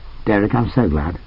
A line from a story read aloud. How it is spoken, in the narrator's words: She smiled and said calmly